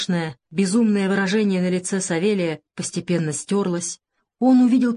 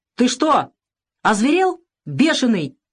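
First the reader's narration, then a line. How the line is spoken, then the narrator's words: Shout. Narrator (Russian): закричал он на Савелия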